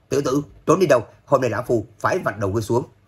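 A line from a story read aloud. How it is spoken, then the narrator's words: Angry loud scolding. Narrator (Vietnamese): Hoàng Phủ Thiên Nguyên giận dữ mắng to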